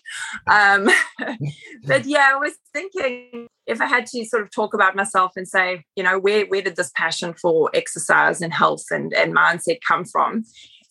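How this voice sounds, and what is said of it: Mixed South African-Australian accent. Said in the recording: “I've got a bit of a mixed accent going on. I'm from South Africa originally, so been in Australia for 10 years ... people back in South Africa say I've got an Aussie accent, and people in Australia say I've got a South African accent”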